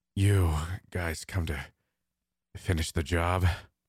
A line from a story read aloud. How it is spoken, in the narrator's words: Kale asked, before letting out a short chuckle